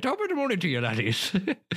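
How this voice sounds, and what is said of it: Exaggerated put-on Irish accent. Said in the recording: “I can do like an Irish accent ... you sound like Jacksepticeye ... I do like an almost insensitive Irish accent”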